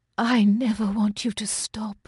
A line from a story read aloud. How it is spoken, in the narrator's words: she whispered